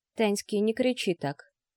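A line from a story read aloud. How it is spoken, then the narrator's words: Quiet. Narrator (Russian): тихо проговорила Анна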